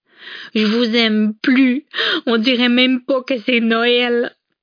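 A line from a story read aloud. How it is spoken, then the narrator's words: Whining, sobbing, muffled. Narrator (French): pleurnicha en s'affalant sur le divan pour se mettre à pleurer à chaudes larmes, le visage dans un coussin vert foncé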